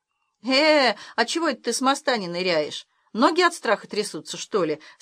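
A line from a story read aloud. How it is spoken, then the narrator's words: Plain. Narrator (Russian): спросил Хромой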